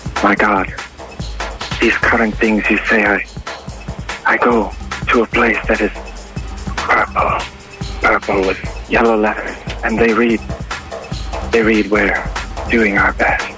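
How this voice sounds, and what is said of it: Possibly Nepalese accent. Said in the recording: “You sound like you have a bit of a, perhaps, Nepalese accent.”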